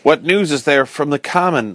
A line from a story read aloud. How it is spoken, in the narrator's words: I gasped weakly